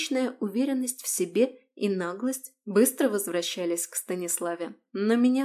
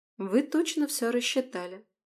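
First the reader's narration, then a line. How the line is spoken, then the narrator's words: Calm. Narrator (Russian): спокойно продолжала я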